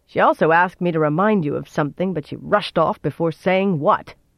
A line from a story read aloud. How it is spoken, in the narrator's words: she finished with a snort